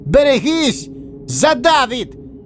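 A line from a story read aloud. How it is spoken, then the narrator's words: Yelled. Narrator (Russian): заорал Венедин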